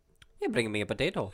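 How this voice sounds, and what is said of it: Bad put-on Irish accent. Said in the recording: “That's my terrible Irish accent. ... Awful.”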